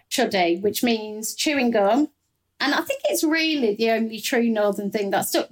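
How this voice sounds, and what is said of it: English Midlands accent. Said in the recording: “Someone should tell your accent you're not from the north. ... This is a Midlands accent.”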